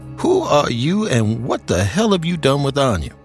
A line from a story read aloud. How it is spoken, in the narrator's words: She laughed